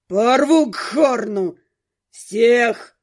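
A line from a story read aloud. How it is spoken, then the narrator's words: Growling. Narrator (Russian): рычал второй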